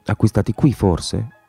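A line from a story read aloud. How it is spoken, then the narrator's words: Murmur. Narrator (Italian): mormorò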